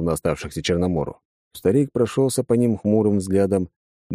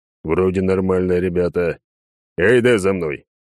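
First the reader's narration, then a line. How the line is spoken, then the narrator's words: Growling. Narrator (Russian): рыкнул им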